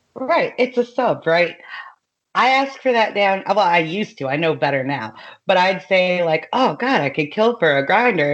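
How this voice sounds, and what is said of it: Speaks with a regional accent. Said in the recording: “my accent, it hasn't really ever gone away”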